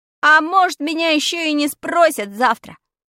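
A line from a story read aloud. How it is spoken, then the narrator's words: Shouted after someone. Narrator (Russian): крикнул я ей вдогонку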